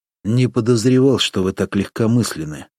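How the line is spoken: Sighing. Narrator (Russian): вздохнул Горкавин

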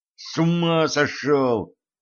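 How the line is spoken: Hissed. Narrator (Russian): прошипел

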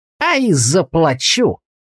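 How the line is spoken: Shopkeeper's malicious grin. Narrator (Russian): злобно улыбнулся лавочник

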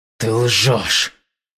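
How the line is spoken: Growling. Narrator (Russian): прорычал

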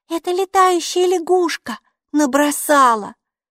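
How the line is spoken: Thin little voice. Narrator (Russian): тоненьким голоском проговорила Алиса

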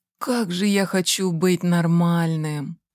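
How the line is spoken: Sighing. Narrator (Russian): вздохнул Егор

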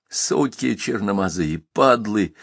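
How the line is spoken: Whispered cursing. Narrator (Russian): шептал, ругался солдат

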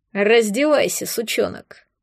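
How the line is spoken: Rough, brother. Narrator (Russian): грубо сказал брат Оксаны

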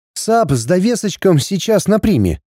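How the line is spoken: Snide remark. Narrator (Russian): ехидно заметил Эри

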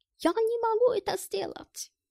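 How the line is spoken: Guilty voice. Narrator (Russian): виноватым голосом произнес Гельмут

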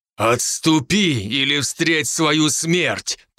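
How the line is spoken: Growling threat. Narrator (Russian): прорычал я ему

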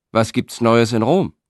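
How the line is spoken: Called out. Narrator (German): rief dann doch noch einer

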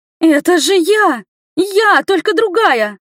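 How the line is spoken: Screaming. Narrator (Russian): завопила

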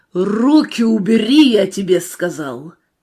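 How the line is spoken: Shouting. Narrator (Russian): закричал

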